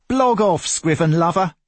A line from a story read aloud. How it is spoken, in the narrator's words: yelled a man